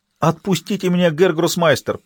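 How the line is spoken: Pleading in Latvian. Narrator (Russian): по-латышски взмолился воришка

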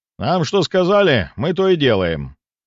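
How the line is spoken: Loud booming voice. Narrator (Russian): ответил зычным голосом один из охотников

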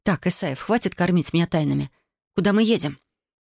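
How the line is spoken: Sharp-toned question. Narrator (Russian): спросила довольно резким тоном

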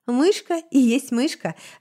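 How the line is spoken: Laughing. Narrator (Russian): рассмеялся Сибель

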